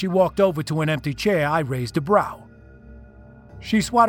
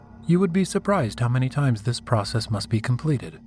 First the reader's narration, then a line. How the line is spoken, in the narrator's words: she said in a flat tone